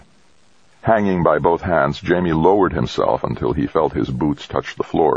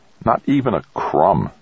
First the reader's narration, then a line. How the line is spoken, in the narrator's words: Dex grumbled